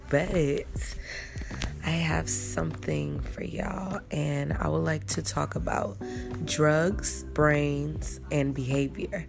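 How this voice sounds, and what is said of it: Groggy, just-woke-up voice. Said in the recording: “my voice sounds a little groggy because I just woke up”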